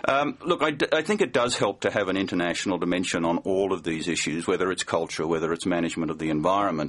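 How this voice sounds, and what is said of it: Australian accent. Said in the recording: “you're a native of Australia, as our listeners can probably tell by your beautiful accent”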